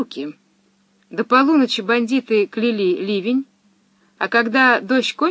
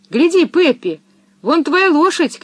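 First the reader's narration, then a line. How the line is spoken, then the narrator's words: Shouting. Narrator (Russian): крикнул Томми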